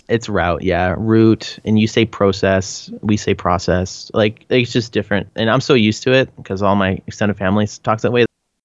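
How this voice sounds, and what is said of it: Canadian accent. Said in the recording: “I get made fun of so much for my Canadian accent.”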